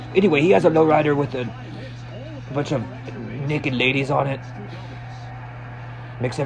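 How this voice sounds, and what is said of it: Usual voice. Nothing is said of it.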